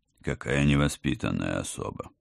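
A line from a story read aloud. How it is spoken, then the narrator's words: Sighing. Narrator (Russian): вздохнул Холмс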